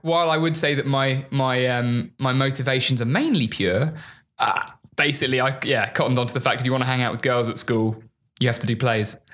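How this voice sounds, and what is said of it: English accent, classically trained sound. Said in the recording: “I can surmise with your accent ... just the accent alone, we all assume you're classically trained immediately upon your dialect”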